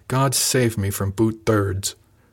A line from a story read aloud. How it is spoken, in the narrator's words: Jaxton replied with a growled